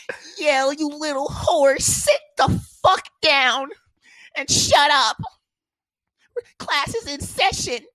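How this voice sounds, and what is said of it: Imitates another person's voice. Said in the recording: “I'm gonna try to do my best impression of this”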